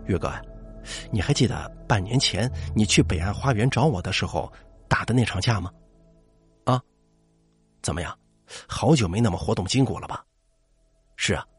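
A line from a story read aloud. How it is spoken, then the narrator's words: Hushed, mysterious. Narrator (Chinese): 向东一脸神秘，压低声音对我说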